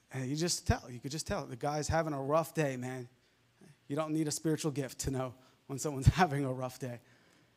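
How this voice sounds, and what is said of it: New York accent. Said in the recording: “He heard my accent. And it used to be stronger, New York accent.”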